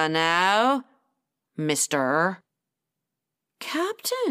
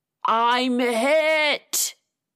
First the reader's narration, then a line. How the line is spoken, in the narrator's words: Ginger roared